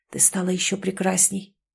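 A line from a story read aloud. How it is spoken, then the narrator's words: Whisper. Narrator (Russian): прошептал Скай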